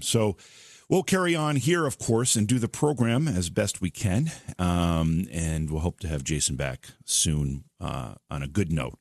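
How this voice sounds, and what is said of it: Hoarse, strained voice. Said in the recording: “I'm a little bit hoarse ... We have to, bear through this hoarseness”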